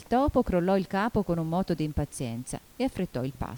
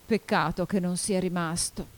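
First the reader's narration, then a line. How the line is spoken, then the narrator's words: Sighing. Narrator (Italian): disse sospirando il Lori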